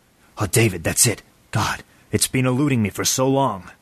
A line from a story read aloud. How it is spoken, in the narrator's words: David whispered